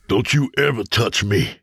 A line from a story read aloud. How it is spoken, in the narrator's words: James spat